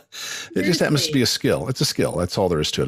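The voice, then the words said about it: Radio announcer voice. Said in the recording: “You can tell I've got a radio voice”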